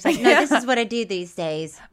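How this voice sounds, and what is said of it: Imitates another person's voice, poorly. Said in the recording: “that your Keith Richards impression? That was terrible.”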